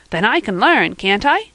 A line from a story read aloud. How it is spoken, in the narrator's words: cried Van joyfully